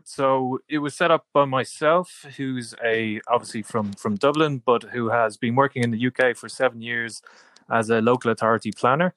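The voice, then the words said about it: Irish accent. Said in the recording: “as anybody will tell from your accent, that that's very much um, an Irish accent”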